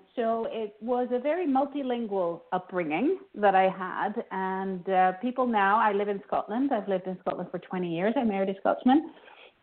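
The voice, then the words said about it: Hard-to-place mixed accent. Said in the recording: “they can't quite place me with my accent, because it's a little bit funny.”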